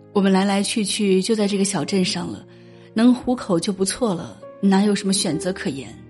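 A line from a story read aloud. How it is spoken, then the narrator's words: Sighing. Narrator (Chinese): 他叹了口气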